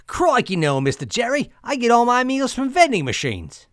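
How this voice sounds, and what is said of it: Hard-to-place put-on accent. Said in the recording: “I've never been able to place that accent.”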